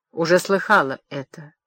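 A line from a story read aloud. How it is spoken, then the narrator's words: Calm reply. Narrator (Russian): спокойно ответила Хурем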